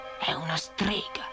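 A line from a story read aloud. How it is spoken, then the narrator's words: Hissed. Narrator (Italian): sibilò il dottore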